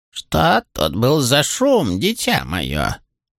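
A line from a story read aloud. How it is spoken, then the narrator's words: Creaky old woman. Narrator (Russian): проскрипела старуха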